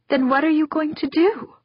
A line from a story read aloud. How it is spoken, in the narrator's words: Angela asked, her voice trembling